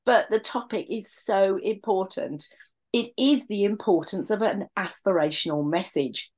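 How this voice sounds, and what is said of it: Slightly raspy, sore-throated voice. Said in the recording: “a little bit of a sore throat today ... I'm still a little bit raspy”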